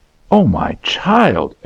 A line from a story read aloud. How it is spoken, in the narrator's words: exclaimed the mother